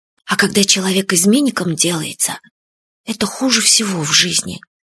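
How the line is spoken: Quiet. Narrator (Russian): тихо сказал Фадейка

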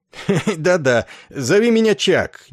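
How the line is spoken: Awkward guffawing. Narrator (Russian): нелепо расхохотавшись, сказал полковник Кошкарт

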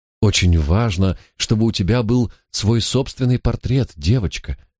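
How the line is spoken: Gentle, affectionate. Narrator (Russian): ласково промолвила Екатерина

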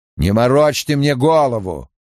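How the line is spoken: Barked. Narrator (Russian): рявкнул Крэмер

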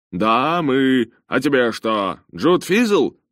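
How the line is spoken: Joyful bark. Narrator (Russian): радостно рявкнул в ответ Джонатан

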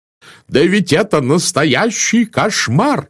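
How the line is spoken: Yelling. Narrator (Russian): завопил мсье Бук

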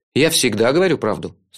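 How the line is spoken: Stern. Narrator (Russian): строго сказал я

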